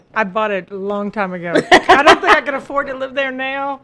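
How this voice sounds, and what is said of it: Southern American twang. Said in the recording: “that Southern twang, you heard it right. is from the South.”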